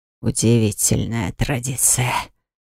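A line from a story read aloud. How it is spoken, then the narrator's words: Hissed through teeth. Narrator (Russian): сквозь зубы прошипел эльф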